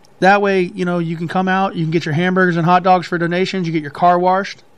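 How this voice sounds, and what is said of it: Southern US accent. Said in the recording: “Southern son of a bitch. You get your car washed. ... Make fun of my accent all you want. ... I just hear certain. It's not even all the time.”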